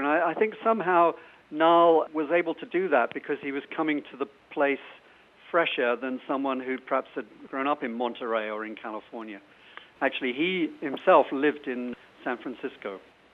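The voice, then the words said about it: British English accent. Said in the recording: “your British accent”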